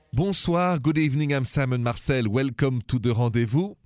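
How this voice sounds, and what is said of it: French accent. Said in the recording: “This accent of mine, by the way, is French.”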